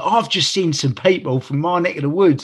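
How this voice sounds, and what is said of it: Exaggerated put-on Gravesend accent. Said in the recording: “I love how you put on an accent even though you're from Gravesend ... you don't have to put on an accent. That's your accent.”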